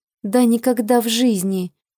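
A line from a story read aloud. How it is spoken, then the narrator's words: Hoarse rasp. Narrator (Russian): прохрипела я в ответ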